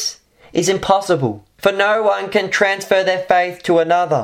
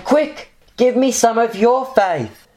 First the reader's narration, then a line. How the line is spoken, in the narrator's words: the foolish ones, they will turn to Christians and plead with them